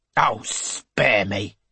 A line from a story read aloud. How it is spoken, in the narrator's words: snaps